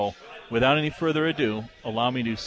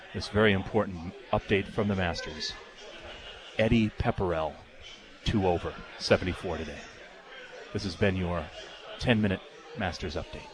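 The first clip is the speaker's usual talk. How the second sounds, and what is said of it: Golf announcer voice. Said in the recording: “slip back into the golf announcer voice”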